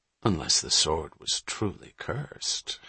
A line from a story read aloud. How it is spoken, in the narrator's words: Hatch murmured facetiously